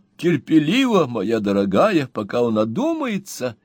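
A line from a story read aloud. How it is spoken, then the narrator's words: Cheerful reply. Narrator (Russian): весело отвечал мистер Пиквик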